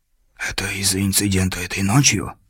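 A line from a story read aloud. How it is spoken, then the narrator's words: Whisper. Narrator (Russian): прошептал повар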